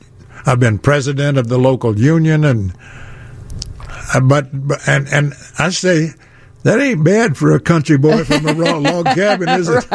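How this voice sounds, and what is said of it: Southern drawl. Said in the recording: “now that you hear he's from the South, don't you hear the drawl a little bit? ... I hear the drawl”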